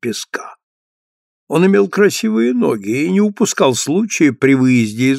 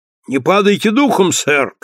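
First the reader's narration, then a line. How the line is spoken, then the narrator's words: Shout. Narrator (Russian): крикнул боцман, быстро входя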